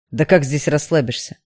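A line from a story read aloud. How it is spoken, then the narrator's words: Stepfather barking. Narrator (Russian): рявкнул отчим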